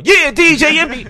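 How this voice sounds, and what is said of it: Hyped radio DJ voice. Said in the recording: “I developed my regular voice as well as a DJ voice. So now I could turn it on.”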